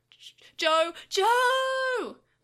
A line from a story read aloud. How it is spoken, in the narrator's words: Yamato screamed with all his might